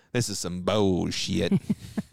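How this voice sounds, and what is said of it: Imitated Tennessee drawl, not very good. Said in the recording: “I can't do a really good Tennessee accent... he kind of had that drawl little bit... He was naturally country.”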